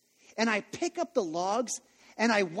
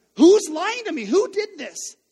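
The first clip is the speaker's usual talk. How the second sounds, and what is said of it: Angry shouting dad voice. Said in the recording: “I've got that angry dad voice”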